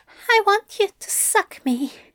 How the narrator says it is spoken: Aziraphale said, trying to keep his voice from shaking and failing

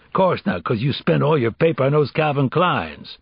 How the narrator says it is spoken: snapped

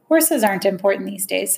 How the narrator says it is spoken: said Fred

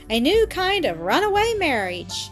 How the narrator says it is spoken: cried

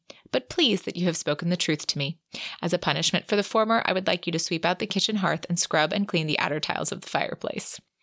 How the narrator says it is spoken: Winter said calmly

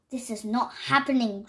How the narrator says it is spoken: Grover mumbled

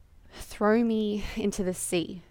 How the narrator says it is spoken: Jonah said

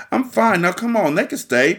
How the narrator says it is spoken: Patty pleaded

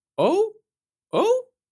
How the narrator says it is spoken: cried Timmy Willy

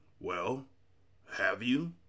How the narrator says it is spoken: insisted the voice, which was so raspy that it made you want to clear your own throat

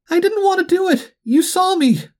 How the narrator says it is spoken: Marty wailed

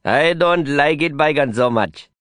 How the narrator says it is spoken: he sneered

